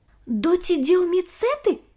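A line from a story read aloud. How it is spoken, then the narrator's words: Exclaiming. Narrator (Russian): воскликнул Ник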